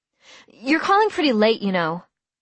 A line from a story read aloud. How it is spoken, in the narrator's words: I said hastily